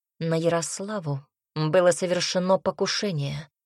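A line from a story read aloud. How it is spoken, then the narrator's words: Cold. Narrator (Russian): холодно выдал принц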